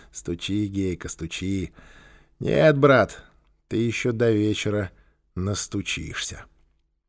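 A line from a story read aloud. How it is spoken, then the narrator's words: Indifferent mutter. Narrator (Russian): Квакин равнодушно пробормотал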